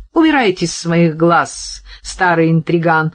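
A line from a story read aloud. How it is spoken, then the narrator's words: Laughing. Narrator (Russian): рассмеялась Кира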